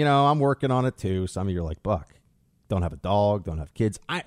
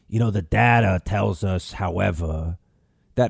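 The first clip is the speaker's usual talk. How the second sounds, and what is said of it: Impression of Dr. Fauci. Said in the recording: “your impersonation of Fauci sounds a lot like Mo from The Simpsons ... it does kind of sound a little bit like Mo ... But he has a different accent. I feel like Mo doesn't have a Brooklyn accent. He just kind of has like a high,”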